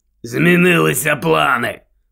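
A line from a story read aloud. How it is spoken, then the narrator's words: Growl. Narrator (Ukrainian): прогарчав Дикозор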